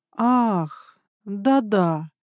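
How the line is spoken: Thoughtful drawl. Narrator (Russian): протянул Крейнс задумчиво

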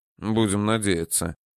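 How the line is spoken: Muttered. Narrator (Russian): пробормотал Данияр

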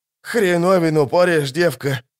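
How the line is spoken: Groaning ferryman. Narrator (Russian): простонал паромщик

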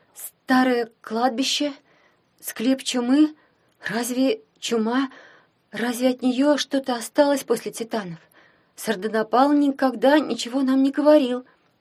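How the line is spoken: Hoarse voice. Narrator (Russian): сказала охрипшим голосом

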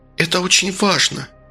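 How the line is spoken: Tender bewitching near-whisper. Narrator (Russian): почти шептал женский голос, такой нежно завораживающий

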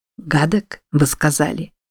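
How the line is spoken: Cheerful whisper. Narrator (Russian): Весело прошептал Чарльз

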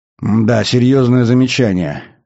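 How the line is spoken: Old man's sigh. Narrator (Russian): вздохнул старый адмирал

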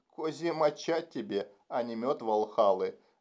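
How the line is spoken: Monotone translation. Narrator (Russian): монотонным голосом переводил Фрэнсен

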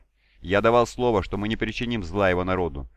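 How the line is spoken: Insistent tone. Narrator (Russian): настойчивым тоном произнес Сор Талгрон

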